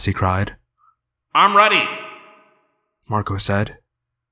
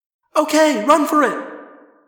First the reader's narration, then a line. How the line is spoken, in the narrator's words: Cassie cried